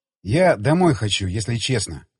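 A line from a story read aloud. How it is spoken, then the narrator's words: Sigh. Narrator (Russian): вздохнул я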